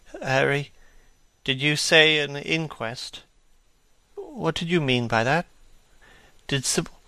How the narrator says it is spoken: he murmured in a stifled voice

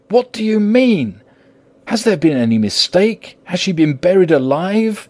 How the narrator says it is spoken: He groaned in anguish that not even hope could soften

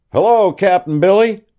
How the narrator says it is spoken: cried Mark

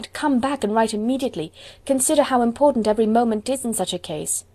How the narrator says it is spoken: she cried

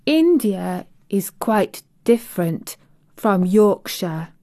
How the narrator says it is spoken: Mary said slowly, as she thought the matter over

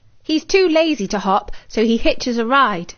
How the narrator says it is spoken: Daisy laughed

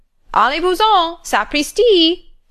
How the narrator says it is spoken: shrieked the parrot outside the door

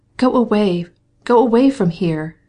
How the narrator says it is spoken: she cried still more impetuously

